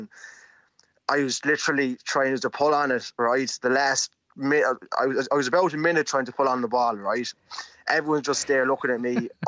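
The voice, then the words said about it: Irish accent mixing Mayo, Midlands. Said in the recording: “I'm trying to place your accent because you're from Rathfarnham, but I mean, I'm picking up bits of Mayo and the Midlands and all over the place ... it's an All Ireland accent”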